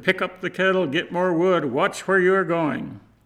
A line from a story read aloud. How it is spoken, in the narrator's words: She barked out orders to her husband